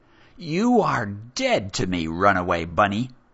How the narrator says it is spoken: The High Royal Cajon spat the words as if it was beneath her to speak to a former slave at all

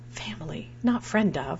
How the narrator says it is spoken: whispered in my ear

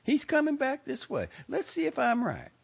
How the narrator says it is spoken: the lady said in an excited voice

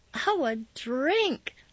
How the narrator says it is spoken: squealed

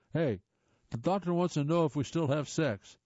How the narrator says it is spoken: shouted

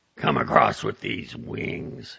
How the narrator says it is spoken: he snarled

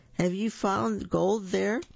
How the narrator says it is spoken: Big Pig cries

